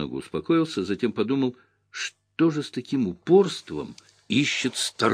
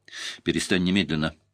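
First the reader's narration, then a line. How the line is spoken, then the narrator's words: Forced calm. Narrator (Russian): повторил я как можно более спокойно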